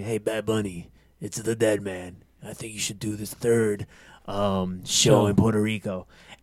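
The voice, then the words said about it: Imitates another person's voice. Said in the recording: “that was a really good impression”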